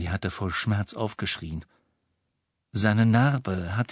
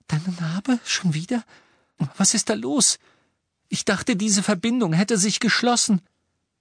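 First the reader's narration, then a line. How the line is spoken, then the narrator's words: Asked anxiously. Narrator (German): Hermine mit ängstlicher Stimme fragte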